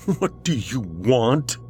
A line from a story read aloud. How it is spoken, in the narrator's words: said shakily with tears in his eyes